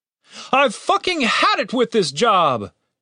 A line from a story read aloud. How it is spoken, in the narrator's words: shouted the leader